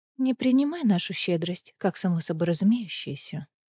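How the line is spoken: Quiet warning. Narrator (Russian): тихо предостерегла Эриса Фейра

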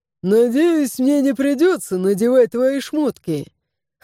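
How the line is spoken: Chuckling warrior. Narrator (Russian): хохотнул воин

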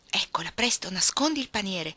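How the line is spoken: Urgent exclamation. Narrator (Italian): esclamò, udendo sbattere l'uscio di casa e un passo nell'atrio

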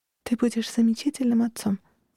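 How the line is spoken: Whisper. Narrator (Russian): услышала я ее шепот

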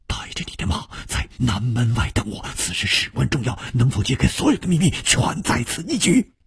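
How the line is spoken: Hushed whisper. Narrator (Chinese): 楚留香压低了语声，悄悄地说

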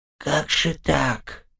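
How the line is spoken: Whisper. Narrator (Russian): прошептал

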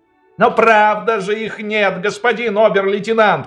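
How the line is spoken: Shouting into phone. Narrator (Russian): кричал в телефон Ванек

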